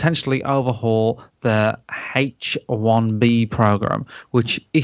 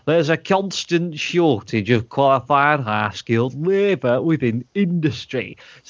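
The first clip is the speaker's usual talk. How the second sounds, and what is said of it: Put-on northern English accent. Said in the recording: “I'm going to do my own accent. I'm going to do it like a northern accent.”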